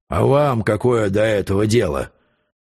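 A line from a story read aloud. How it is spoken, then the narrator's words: Muffled, indistinct voice. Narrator (Russian): сказал он глухим и невнятным голосом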